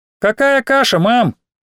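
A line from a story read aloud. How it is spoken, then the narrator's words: Shout through wall. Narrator (Russian): крикнула Алина сквозь картонную стену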